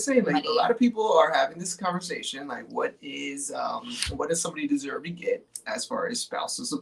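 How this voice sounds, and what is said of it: Usual voice. Nothing is said of it.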